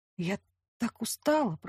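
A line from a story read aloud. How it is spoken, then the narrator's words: Whisper. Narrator (Russian): прошептала я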